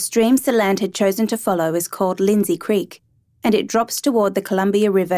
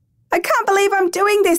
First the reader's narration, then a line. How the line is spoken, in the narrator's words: screamed